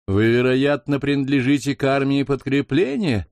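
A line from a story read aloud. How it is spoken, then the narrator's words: Brash, overfamiliar tone. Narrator (Russian): осведомился самым развязным тоном сэр Буцефал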